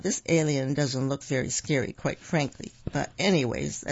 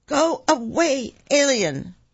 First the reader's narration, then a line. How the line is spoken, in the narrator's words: Make your scariest face and shout